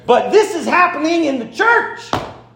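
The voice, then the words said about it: Shouting. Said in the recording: “I'm shouting up here”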